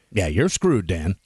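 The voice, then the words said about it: Game show host voice. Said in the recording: “in ... best game show voice”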